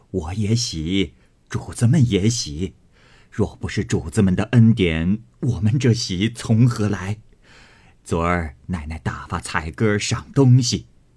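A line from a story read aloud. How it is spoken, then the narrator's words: Old woman laughing. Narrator (Chinese): 赖嬷嬷向炕沿上坐了，笑道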